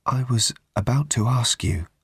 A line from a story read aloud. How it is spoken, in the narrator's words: she said in a low, trembly voice